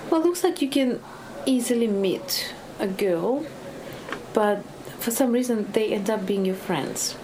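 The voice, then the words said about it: Eastern European accent. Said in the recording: “the Eastern European accent”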